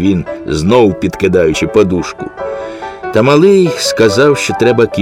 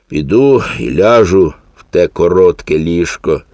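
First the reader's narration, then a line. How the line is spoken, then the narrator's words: Sigh. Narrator (Ukrainian): зітхнув він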